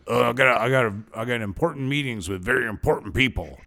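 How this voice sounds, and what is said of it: Imitates another person's voice. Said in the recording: “my impersonation of you”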